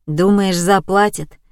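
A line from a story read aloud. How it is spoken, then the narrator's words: Gloomy question. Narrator (Russian): мрачно спросил Борис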